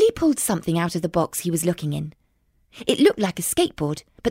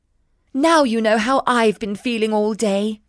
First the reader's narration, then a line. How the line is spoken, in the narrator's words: sighed Jeremiah